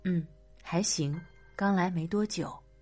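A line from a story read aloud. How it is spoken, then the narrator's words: Flat, indifferent. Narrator (Chinese): 我淡淡接话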